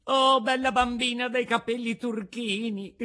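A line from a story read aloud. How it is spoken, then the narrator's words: Shout. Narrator (Italian): gridava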